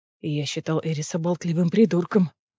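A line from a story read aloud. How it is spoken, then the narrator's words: Growling. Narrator (Russian): прорычал Кассиан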